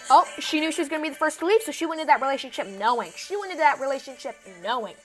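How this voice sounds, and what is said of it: Very fast speech. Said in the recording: “I'm talking so fast”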